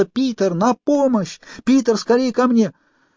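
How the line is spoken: Desperate scream. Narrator (Russian): Охваченная отчаянием, она снова закричала

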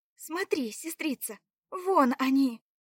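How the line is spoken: Exclaimed. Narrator (Russian): воскликнула Заряна

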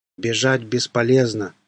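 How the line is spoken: Plain, zombie. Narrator (Russian): сказал зомби

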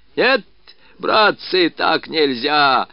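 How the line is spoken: Hoarse rough shouting. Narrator (Russian): выкрикивал он своим хриплым кабацким голосом

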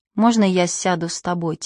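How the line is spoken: Quiet question. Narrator (Russian): тихо спросил Префен

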